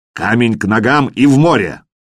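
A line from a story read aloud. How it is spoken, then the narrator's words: Barked commanding voice. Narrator (Russian): командный голос Аслака Утки рявкнул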